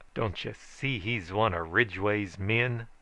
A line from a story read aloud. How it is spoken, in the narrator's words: snarled he